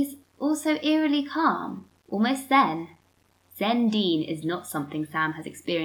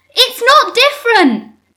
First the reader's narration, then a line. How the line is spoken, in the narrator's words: Sam shouts